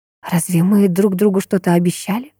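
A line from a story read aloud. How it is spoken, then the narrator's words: Whisper. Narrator (Russian): прошептала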